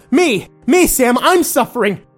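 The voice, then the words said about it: Scratchy, tearful yelling. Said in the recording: “she yelled ... Her voice was scratchy. It was obvious she'd been crying”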